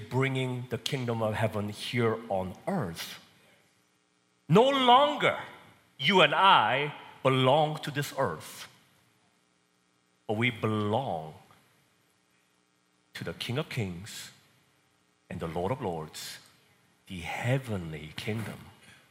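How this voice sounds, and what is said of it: Korean accent. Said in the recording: “I come from Korean background. So I was born and raised in Korea. Probably can tell because of my accent. ... I like my accent.”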